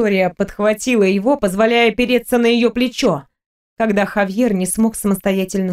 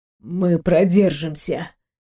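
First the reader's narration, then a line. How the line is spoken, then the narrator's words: Dull, muffled mutter. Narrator (Russian): Глухо пробормотал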